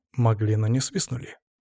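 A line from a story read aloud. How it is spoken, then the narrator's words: Calm reply. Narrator (Russian): спокойно ответил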